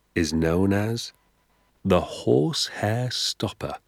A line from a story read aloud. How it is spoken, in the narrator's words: he said softly